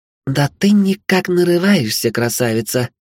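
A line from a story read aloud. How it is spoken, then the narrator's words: Creepy sugary voice. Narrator (Russian): спросила Вилея елейным голоском, от которого даже у меня мурашки по спине побежали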